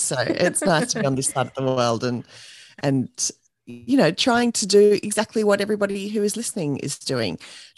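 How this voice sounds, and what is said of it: Australian accent. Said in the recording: “I'm here in Australia, and you can probably tell that from my accent already”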